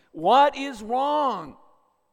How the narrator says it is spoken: another boy inside the palace wall heard the distressed boy's cry, climbed on top of the wall, and cried out in a loud voice

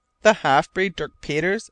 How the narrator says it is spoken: I exclaimed

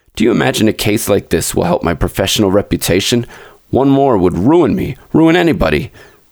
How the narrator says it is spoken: he turned away muttering

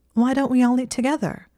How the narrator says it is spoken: She said in a bright voice

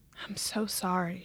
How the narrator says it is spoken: she whispered

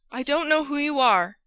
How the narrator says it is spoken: he cried

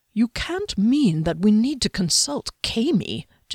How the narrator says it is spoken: Jiskellen murmured, his slackened jaw agape

